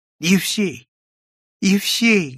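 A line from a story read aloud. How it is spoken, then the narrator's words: Tearful voice. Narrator (Russian): говорил Прозрачный плачущим голосом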